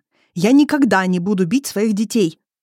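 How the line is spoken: Sudden loud male growl. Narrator (Russian): рыкает он так неожиданно и громко

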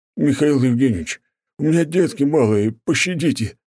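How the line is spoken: Desperate pleading. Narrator (Russian): взмолился дворник, понимая, что приказ все-таки придется выполнить

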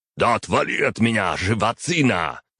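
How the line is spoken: Growl. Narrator (Russian): рыкнул Батори

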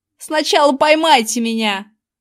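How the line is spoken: Yelled. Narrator (Russian): завопил левша

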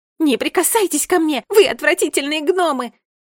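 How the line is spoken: Very loud shout. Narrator (Russian): закричала Джеральдина так громко

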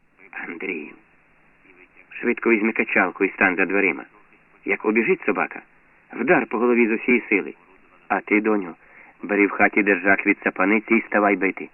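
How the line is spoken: Whispered command. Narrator (Ukrainian): Пошепки ж наказує дітям

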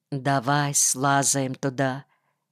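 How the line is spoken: Quiet speech. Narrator (Russian): Кирка сказал мне тихо

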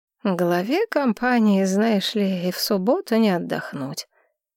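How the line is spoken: Bored tone. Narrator (Russian): скучающим тоном говорил Несина

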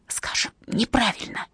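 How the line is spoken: Whisper. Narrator (Russian): прошептал Дон

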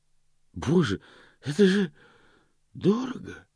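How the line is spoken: Breathless exhale. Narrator (Russian): выдохнул

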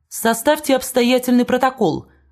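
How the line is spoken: Shout. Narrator (Russian): крикнул

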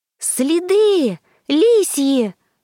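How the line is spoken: Excited shout. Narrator (Russian): возбужденно прокричала Саня

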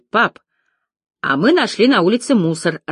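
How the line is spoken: Little girl, joyful. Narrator (Russian): радостно сообщила малышка

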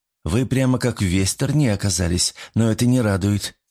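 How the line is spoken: Sad. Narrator (Russian): грустно сказала Мичика

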